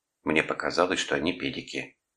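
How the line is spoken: Lowered, angry voice. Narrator (Russian): понизив голос, добавила специально для меня, сердито передернувшись

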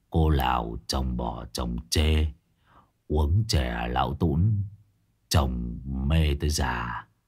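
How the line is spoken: Muttered reading. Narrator (Vietnamese): lẩm bẩm đọc tiếp

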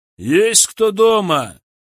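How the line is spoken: Loud question. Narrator (Russian): громко спросил Николай

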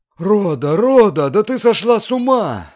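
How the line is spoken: Shrieking woman. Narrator (Russian): завопила госпожа Бенсусон

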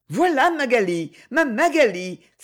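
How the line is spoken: Sudden joyful exclamation. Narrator (French): s'écria tout à coup Freddy

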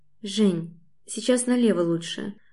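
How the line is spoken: Quiet prompt. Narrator (Russian): подсказываю тихо

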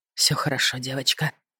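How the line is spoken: Ardent whisper. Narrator (Russian): прошептал он горячо

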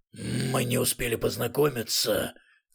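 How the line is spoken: Muffled fierce voice. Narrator (Russian): глухим свирепым голосом произнесла левая голова

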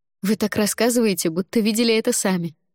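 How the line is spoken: Laughing. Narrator (Russian): рассмеялась

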